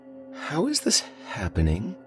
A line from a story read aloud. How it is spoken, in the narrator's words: I murmured